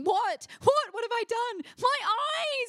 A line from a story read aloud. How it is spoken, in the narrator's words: I shrieked like a bloody banshee